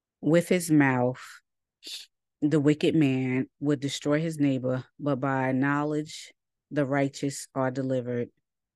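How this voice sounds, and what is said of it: Stuffy, tired voice. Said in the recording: “I'm a little stuffy ... I'm tired. I am tired. You could probably hear it in my voice.”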